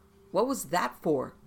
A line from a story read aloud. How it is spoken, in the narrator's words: Adrian asked angrily